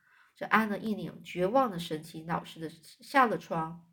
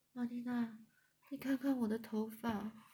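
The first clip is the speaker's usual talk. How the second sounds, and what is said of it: Tiny, faint mosquito-like voice. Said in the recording (Chinese): “用蚊子似的声音说”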